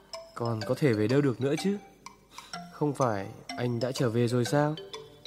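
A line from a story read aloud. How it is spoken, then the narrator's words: Stunned, lowered voice. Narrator (Vietnamese): Anh sững người, hạ giọng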